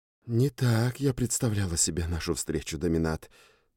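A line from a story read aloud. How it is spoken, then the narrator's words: Woman's whisper from above. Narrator (Russian): прошептал надо мной женский голос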